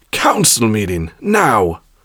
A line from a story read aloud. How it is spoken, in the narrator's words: she barked into it